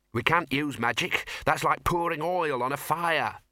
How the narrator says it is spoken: snapped the Dean

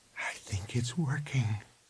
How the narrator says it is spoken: she said softly

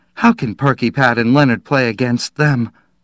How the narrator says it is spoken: Her voice shook

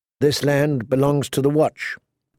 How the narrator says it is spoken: John said

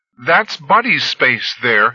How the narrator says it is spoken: said a girl, her voice raised above the rain, hoarse and a little frightened

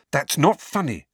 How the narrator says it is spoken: said Hermione sharply

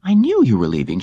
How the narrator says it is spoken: she exclaimed

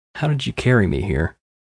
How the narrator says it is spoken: Katerina laughed

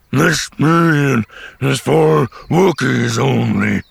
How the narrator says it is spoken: rumbled

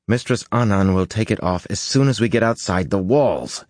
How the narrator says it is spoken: he growled

